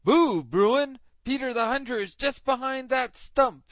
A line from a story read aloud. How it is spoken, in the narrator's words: shouted the fox right into the bear's ear